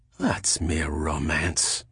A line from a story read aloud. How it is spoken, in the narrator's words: muttered Pellerat